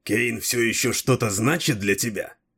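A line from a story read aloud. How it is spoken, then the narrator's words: Jealous, through teeth. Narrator (Russian): процедил Дрибок, пораженный уколом ревности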